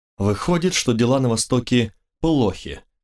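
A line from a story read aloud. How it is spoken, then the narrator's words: Plain. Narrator (Russian): спросил я Каира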